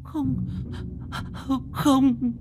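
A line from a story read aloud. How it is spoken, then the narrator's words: Terrified old woman stammering. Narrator (Vietnamese): Bà cụ Xuân kinh hãi đến tột độ, bà lắp bắp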